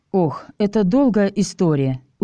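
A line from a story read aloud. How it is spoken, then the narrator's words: Tired. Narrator (Russian): устало ответил я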